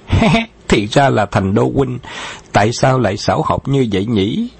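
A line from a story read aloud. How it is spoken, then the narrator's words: Loud laugh. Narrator (Vietnamese): Khấu Trọng đã cười lớn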